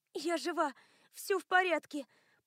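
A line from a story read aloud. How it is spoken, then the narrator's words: Breathless rasp. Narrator (Russian): прохрипела Лиэн, пытаясь перевести дух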